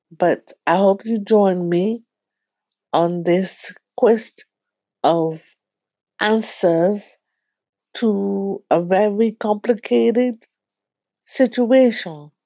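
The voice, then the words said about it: Caribbean-sounding accent. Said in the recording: “I have a Caribbean accent”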